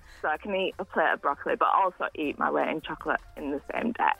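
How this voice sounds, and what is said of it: Noticeable regional accent. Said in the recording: “I love that accent”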